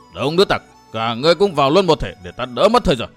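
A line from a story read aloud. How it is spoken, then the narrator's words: Angry loud shout. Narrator (Vietnamese): Tiêu Bắt bực quá, quát to lên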